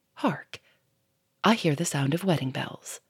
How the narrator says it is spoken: Lupin paused and said softly

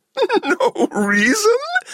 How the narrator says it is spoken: That giggle again

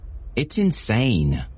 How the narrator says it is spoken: Elizabeth exclaimed, falling onto the sofa in a huff

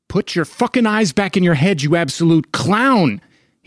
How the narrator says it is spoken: shouted

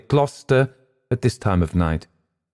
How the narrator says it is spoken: I replied firmly

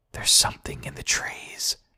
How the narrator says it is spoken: he whispered

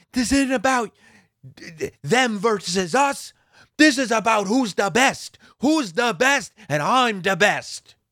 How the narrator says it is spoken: yelling at her

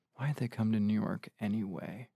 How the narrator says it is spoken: Lana muttered

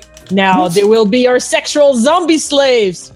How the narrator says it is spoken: cried the mad hippie

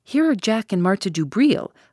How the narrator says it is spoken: I exclaimed

